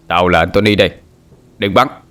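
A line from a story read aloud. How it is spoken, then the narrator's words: Giggling loud shout. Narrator (Vietnamese): Hắn cười lên khúc khích, hét lớn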